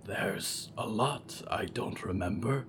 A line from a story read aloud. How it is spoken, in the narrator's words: Diggory said quietly